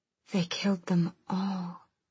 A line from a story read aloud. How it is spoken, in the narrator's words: she breathed